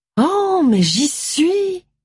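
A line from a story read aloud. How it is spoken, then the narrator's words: Exclaiming. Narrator (French): s'écria Molly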